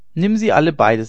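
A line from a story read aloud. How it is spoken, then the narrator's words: Plain. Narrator (German): sagte Tede Hein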